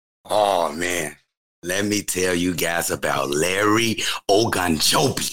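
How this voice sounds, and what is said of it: Put-on accent. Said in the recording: “with the accent, too.”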